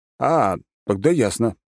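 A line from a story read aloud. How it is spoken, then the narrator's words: Muttered. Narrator (Russian): буркнул я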